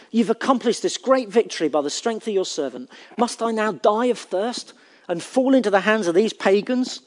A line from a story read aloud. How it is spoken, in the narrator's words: He cried out to the Lord